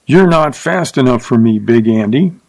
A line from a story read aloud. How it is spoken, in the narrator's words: Mertzen snarled